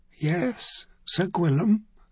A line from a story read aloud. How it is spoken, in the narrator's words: Sversman whispered